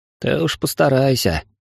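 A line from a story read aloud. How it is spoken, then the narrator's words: Sighing. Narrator (Russian): вздохнул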